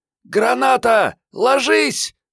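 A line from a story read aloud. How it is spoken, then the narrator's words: Shriek. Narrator (Russian): взвизгнула Мариетта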